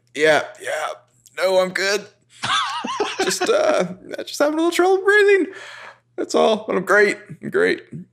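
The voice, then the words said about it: Husky, strained breathless voice. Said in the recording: “He's getting straight up husky here.”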